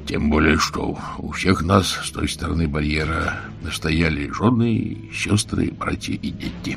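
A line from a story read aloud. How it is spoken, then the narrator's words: Barely audible. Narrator (Russian): едва слышно добавил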